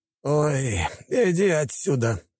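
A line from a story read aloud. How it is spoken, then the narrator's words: Man grumbling. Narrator (Russian): проворчал мужчина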